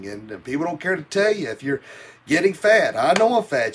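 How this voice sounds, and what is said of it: Thick regional accent, fast speech. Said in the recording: “I tend to speed up ... the faster I talk ... you talk so fast ... not only did I talk fast, but because of my thick accent.”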